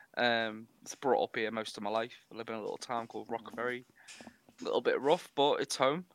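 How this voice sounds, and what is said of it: Wirral / Liverpool area accent. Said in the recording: “I'm from the Wirral, which is across the water from Liverpool, if you can't pick it up by my accent.”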